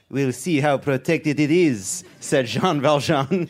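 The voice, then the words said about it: Put-on French accent. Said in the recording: “please do French accent. I did it.”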